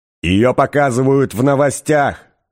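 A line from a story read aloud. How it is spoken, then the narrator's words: Shouting from another room. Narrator (Russian): крикнул из своей спальни Артур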